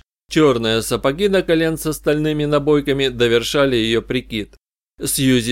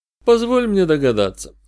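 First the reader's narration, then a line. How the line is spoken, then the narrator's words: Weary. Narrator (Russian): устало предложил я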